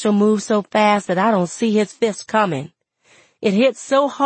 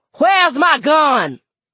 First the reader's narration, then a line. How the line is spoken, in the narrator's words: he starts hollering